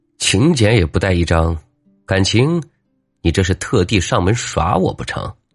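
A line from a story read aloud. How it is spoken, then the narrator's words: Cold sneer. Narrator (Chinese): 王五冷冷一笑，道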